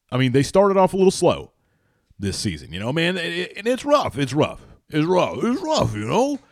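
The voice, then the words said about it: Poor impression, cartoon-dog-like voice. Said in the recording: “I'm Stallone all of a sudden... Sounded more like Scooby-Doo... That was terrible... terrible impersonation of Scooby-Doo”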